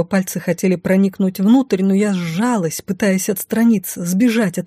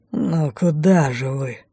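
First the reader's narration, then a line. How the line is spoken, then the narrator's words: Growled into the ear. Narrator (Russian): прорычал Сакс на ухо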